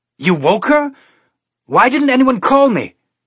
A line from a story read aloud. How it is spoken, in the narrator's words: he yelled at Calvin